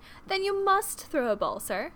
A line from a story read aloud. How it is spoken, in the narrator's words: exclaimed Lydia